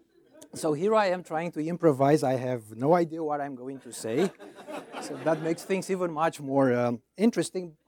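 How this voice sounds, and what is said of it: Foreign accent with gravitas. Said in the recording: “my foreign accent ... you have that gravitas given by your accent”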